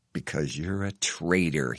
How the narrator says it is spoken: he hisses

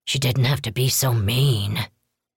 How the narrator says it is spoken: Wong muttered

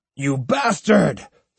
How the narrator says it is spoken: screamed the proprietor

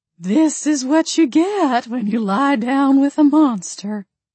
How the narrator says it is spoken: Grandma Ruthie sighed at my ear, clucking her tongue

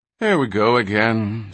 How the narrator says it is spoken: sighed Flick

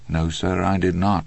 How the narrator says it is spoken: Andy said calmly

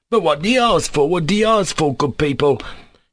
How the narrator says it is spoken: he cried, almost in desperation

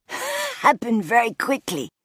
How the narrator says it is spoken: Dieter wheezed

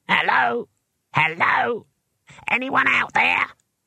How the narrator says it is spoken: It was a small and squeaky voice and came from the picture box

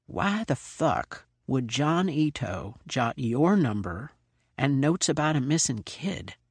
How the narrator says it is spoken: Slidell said quietly

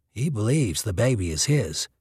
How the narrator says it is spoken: Thatcher said quietly

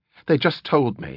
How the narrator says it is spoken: he panted

